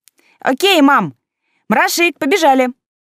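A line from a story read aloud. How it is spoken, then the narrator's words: Child shouting from afar. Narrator (Russian): Крикнув уже из коридора, дочка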